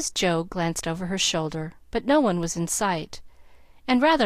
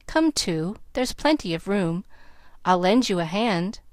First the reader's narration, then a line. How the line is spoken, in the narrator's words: Dan said, laughing